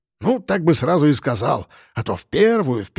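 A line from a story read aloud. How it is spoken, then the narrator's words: Grumbling sergeant. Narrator (Russian): ворчал старшина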